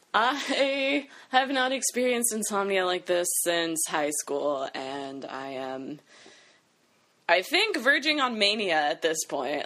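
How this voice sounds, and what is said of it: Loopy, drunk-sounding sleep-deprived speech. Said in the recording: “I sound drunk because I'm so, like, sleep deprived ... loopy”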